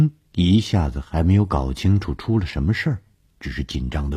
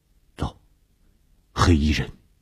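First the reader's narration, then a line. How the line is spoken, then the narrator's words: Low voice. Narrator (Chinese): 低声地说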